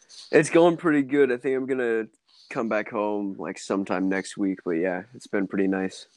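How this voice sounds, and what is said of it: Tired-sounding voice. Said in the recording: “you sound pretty tired”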